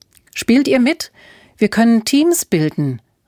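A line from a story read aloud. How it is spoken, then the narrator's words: Calling out to others. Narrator (German): rief Alfred ihnen zu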